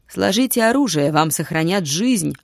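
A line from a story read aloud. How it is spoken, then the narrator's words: Barking over army noise. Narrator (Russian): гаркнул Растак, пытаясь перекричать гул собственного войска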